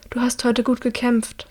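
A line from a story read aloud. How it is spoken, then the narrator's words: Quiet. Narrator (German): sagt Hilda leise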